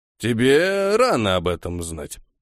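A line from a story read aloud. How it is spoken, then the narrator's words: Dry, curt. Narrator (Russian): сухо отрезал Хильдефон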